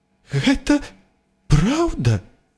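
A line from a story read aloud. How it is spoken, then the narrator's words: Trembling voice. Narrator (Belarusian): дрыжачым голасам вымавіла прафесар МакГонагал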